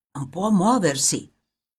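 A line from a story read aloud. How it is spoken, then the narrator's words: Grave whisper. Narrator (Italian): qualcuno con voce grave gli sussurrava negli orecchi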